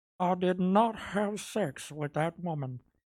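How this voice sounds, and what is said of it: Poor imitation of another person's voice. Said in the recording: “Do you have a good Bill Clinton impression?... So the answer is no, then.”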